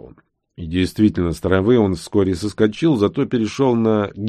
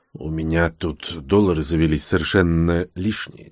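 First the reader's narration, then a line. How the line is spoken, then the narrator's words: Quiet. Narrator (Russian): тихонько проговорил я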